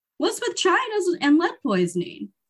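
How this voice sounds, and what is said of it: Poor Jerry Seinfeld impression. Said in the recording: “that was the worst Jerry Seinfeld impersonation. ... What's the deal with that impression?”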